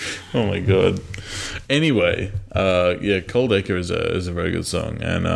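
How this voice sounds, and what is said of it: Usual voice. Nothing is said of it.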